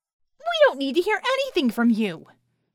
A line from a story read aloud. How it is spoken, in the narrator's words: Scope shouted